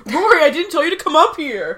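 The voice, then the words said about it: Imitates a TV character's voice. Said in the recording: “my Dean impression is also my Jess impression”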